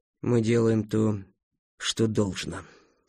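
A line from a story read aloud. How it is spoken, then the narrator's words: Weary. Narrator (Russian): устало ответил Сайлес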